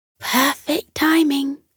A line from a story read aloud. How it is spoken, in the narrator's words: whispered Patty